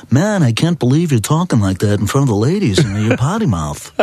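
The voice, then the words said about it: Impression of a fellow comedian. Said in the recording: “That's a great impression. ... I can do impressions of other comedians.”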